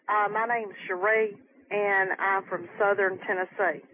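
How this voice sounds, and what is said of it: Southern American accent. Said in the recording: “I love your accent. ... I love the Southern accent.”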